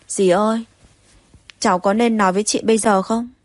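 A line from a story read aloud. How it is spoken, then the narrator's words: Sighing. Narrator (Vietnamese): Tống Bách Hợp lại thở dài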